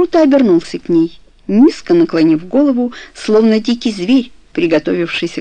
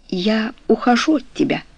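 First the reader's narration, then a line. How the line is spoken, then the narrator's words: Quiet but clear. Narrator (Russian): продолжала Каро тихо, но отчетливо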